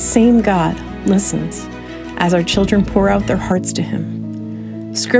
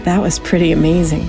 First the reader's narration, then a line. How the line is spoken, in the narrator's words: she sighed